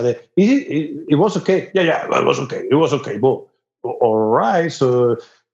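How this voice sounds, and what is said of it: Thick Spanish accent. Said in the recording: “your accent is very thick ... I'm from fucking Spain”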